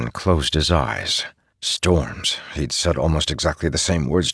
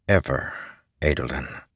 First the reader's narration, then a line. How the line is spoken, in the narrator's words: said softly